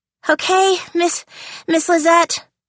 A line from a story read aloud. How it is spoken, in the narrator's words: panted Mackenzie, who'd been dancing for 40 minutes straight